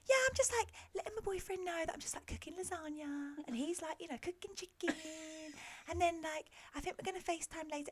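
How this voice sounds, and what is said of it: Annoying mocking girly voice. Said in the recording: “do that annoying voice”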